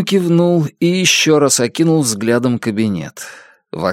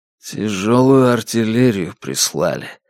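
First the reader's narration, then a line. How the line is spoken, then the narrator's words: Muttered. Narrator (Russian): пробормотал он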